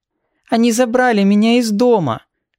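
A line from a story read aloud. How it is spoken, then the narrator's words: Thin sniffling child's complaint. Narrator (Russian): Тонким голоском, то и дело шмыгая носом, пожаловалась девочка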